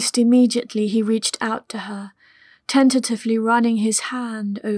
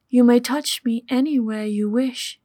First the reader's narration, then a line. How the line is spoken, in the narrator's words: said